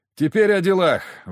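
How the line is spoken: Exhaled words. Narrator (Russian): выдохнул

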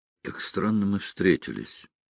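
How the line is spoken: Muttered. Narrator (Russian): пробормотал

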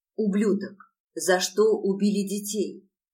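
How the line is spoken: Hoarse rasp, close. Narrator (Russian): прохрипела я ему в лицо

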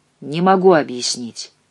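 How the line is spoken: Sigh. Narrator (Russian): вздохнул он

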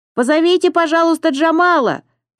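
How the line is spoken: Shouting voice. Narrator (Russian): прокричал голос

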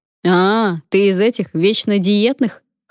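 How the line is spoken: Scoffing. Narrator (Russian): хмыкнул Потап

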